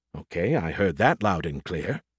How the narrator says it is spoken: he muttered

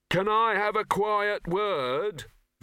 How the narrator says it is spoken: Victor shouted in Rock's pointed ear

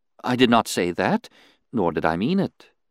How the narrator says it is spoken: she responded soothingly

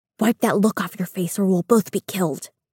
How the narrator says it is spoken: the servant whispers into my ear

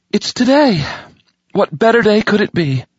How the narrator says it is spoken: announcing brightly to the empty bedchamber

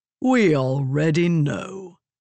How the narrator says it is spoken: the man said, chuckling

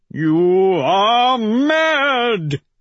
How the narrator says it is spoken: he howls

